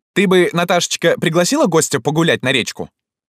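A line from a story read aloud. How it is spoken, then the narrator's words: High, insistent voice. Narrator (Russian): высоким настырным голосом сказал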